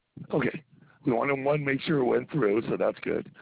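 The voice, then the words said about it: Congested, strained voice. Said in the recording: “my voice is all messed up from allergies”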